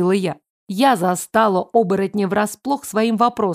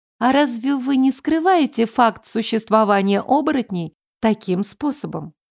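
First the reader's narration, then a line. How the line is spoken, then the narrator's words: Plain. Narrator (Russian): спросила я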